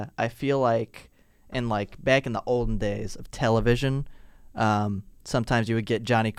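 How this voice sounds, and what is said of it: Usual voice. Nothing is said of it.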